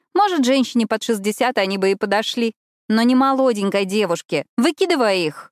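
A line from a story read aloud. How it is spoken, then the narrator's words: Commanding tone. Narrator (Russian): командным тоном произносит Роуздейл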